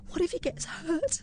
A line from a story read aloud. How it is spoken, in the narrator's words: I sobbed in terror